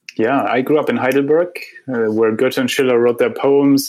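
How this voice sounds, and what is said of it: German accent. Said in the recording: “your accent might have already clued our listeners into that”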